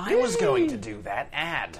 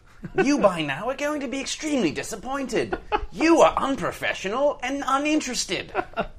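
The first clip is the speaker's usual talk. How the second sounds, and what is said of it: Bad put-on British accent. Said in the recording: “Friggin' Brits... That accent's awful”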